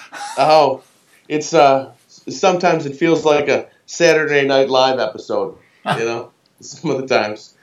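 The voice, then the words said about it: American accent. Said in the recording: “I'm spotting by the accent that you're not based in the UK, perhaps. ... No, I'm American”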